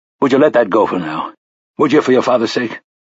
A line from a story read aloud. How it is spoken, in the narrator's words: Roland asked sharply